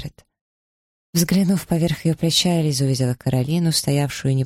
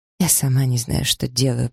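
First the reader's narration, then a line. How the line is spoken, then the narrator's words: Trembling confession. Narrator (Russian): призналась Маргарет дрожащим голосом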